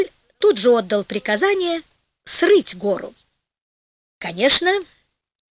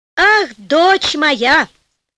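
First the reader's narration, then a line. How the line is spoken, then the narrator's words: Joyful king shouting. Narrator (Russian): закричал обрадованный король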